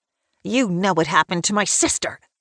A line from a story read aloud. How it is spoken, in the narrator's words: snaps